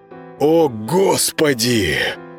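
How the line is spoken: Admiring breathless exhale. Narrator (Russian): восхищенно выдохнул Володаров

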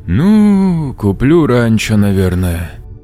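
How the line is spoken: Drawling. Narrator (Russian): протянул он

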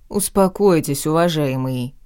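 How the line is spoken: Pompous deep bass. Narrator (Russian): важно пробасил мужчина

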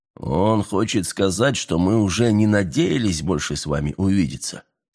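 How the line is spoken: Calm explanation. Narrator (Russian): спокойно пояснил Андреа

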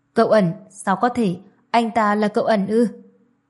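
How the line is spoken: Trembling with fear. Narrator (Vietnamese): Tư Mã Phong sợ hãi đến run rẩy

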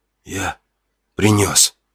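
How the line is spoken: Hoarse strained exclamation. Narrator (Russian): Только и хватило сил хрипло выдавить

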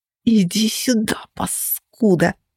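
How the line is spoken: Hissed like snake, coughing. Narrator (Russian): прошипела змеей она, откашливаясь и кривясь

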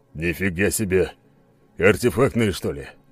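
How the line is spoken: Mutter. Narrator (Russian): пробормотал он

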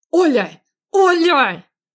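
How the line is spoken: Yelling. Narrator (Russian): заорал Андрей

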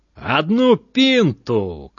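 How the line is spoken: Belligerent shout. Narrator (Belarusian): крыкнуў ён ваяўніча

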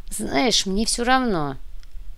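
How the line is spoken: Mumbling with mouth full. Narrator (Russian): промямлила девушка, уплетая бутерброд

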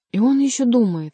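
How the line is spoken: Exclamation. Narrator (Russian): воскликнула Жанна

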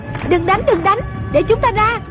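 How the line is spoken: Shouted. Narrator (Vietnamese): Trung Linh la lên

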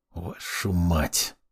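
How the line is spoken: Hissed. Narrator (Russian): прошипел я

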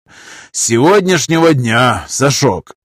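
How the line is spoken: Sighing. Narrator (Russian): вздохнул полковник

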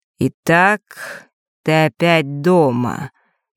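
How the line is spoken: Slow, fatherly voice. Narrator (Russian): медленно произнес отец

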